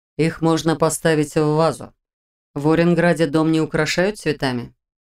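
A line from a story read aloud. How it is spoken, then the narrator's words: Calm, indifferent general. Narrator (Russian): Голос генерала звучал спокойно и равнодушно, но в кои-то веки не грозно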